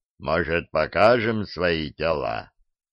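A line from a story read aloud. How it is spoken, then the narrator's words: Booming drone. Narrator (Russian): прогудел Диффенбахий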